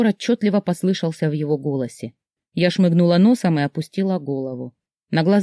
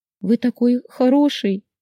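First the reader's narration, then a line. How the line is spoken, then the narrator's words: Sobbing. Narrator (Russian): всхлипнула я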